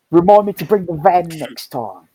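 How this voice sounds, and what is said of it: Convincing put-on Cockney accent. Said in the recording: “How have you got my dad's accent so down? ... Is he Cockney? ... he sounded exactly like Derek Trotter from Only Fools and Horses”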